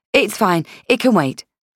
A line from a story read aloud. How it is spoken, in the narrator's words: I said quickly